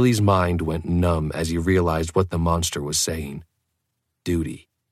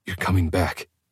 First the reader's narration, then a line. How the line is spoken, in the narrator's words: he choked out